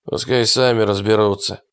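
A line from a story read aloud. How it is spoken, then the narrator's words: Muttered grumble. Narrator (Russian): буркнул Питерс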